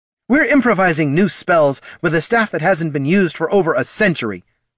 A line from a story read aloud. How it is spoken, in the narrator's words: snapped Laruna